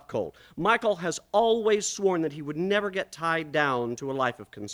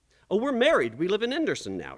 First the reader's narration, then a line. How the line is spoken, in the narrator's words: he said